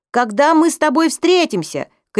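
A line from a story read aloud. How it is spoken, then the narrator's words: Shouted. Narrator (Russian): крикнул Эдик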